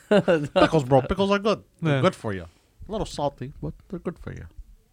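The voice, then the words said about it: Deliberately dumb, goofy put-on voice. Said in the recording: “why do you use your dumb voice? ... it's like you already know that we're not going to like it ... my dumb alter ego”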